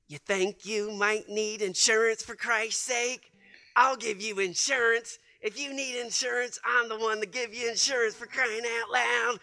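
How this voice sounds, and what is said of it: Goofy put-on character voice. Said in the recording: “start making up goofy voices ... I would do my impersonations”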